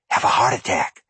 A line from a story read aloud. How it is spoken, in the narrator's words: Zebul whispered